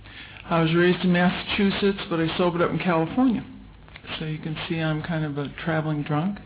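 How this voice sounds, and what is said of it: Noticeable regional accent. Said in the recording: “You're going to hear an accent.”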